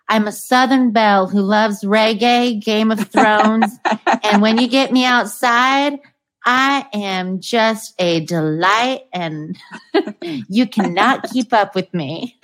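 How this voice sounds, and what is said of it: Convincing Southern US accent. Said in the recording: “her Southern accent. You do a perfect one.”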